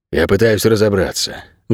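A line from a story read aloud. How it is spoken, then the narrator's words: Sighing. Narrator (Russian): вздохнул Ричи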